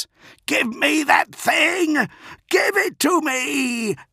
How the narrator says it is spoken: screamed at John Grammaticus

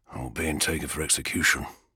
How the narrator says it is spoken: Ol whispers

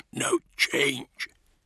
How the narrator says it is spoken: he said in a husky voice

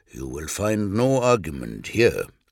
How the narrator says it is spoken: Numion replied, and in a lower voice added

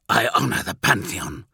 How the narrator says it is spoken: Vogel hissed, evidently displeased

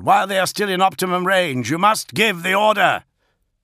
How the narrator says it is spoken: Gorod roared

